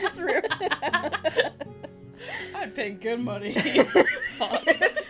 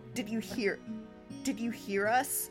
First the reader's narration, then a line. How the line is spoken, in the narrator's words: Anna said shakily